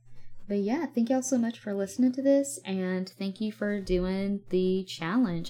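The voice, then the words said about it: Southern US accent, varying strength. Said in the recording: “I'm going like in and out of the strength ... I have a Southern Audio ... the stronger accent ... The lower accent”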